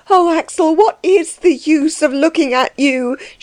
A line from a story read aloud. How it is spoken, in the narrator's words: cried in despair